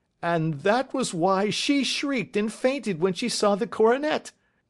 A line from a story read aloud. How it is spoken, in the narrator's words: cried Mr